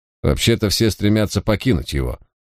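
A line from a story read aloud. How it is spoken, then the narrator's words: Snorting guard. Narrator (Russian): хмыкнул караульный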